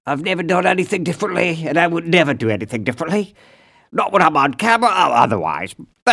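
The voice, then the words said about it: Speaks with a noticeable accent. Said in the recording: “I've always had the same accent”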